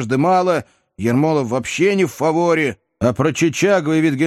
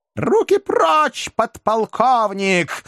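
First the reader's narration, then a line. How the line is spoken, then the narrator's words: Shrill female squeal. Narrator (Russian): взвизгнула прелестница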